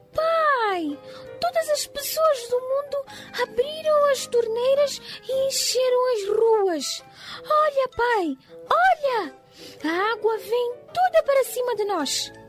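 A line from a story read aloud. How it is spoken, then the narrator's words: Terrified shout. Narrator (Portuguese): ficou apavorado e gritou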